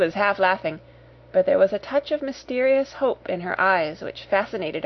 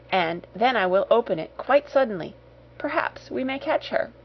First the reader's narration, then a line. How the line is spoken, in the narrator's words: she whispered